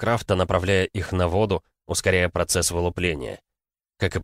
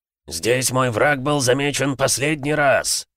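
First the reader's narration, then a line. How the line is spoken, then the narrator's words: Shouting. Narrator (Russian): крикнул Херобрин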